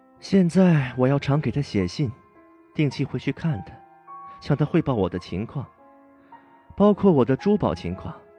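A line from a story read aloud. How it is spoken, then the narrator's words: Weary sigh. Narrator (Chinese): 艾斯黛拉叹了口气，好像带有十分的倦意，说道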